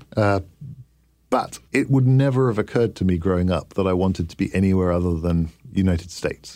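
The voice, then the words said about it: Non-native English accent. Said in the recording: “you can tell by my accent ... You have a funny accent, ... You talk funny.”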